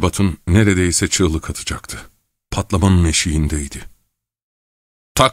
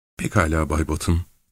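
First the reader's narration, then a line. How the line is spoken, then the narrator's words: Calm voice. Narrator (Turkish): dedi sakin bir sesle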